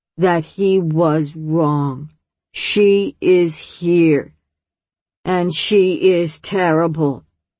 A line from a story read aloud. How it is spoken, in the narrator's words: she said, very, very slowly, laying each word next to the one before, like a long, straight line of heavy, round stones